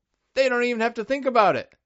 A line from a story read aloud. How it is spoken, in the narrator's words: exclaims